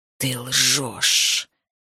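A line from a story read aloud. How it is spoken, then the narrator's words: Hissing. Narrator (Russian): прошипел Азин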